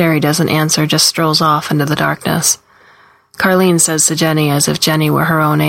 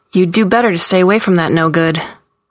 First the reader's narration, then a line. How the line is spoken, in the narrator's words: Carlene snaps